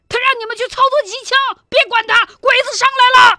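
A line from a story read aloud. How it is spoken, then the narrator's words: Shouting. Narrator (Chinese): 喊完这嗓子，朱彤头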